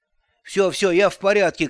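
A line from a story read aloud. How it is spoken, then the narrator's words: Shouting. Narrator (Russian): крикнул Эльдад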